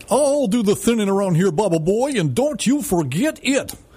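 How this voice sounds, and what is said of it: Cartoon character voice impression. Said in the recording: “That's my impersonation. Those of you who know who Quickstraw McGraw is saying, yep, that's him.”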